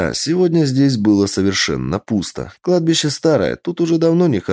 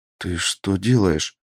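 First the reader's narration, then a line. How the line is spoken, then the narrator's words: Whispered. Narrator (Russian): шепнула Ирина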